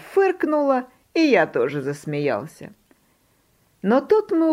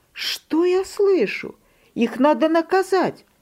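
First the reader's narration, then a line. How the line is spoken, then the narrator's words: Mother exclaiming. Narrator (Russian): Мама воскликнула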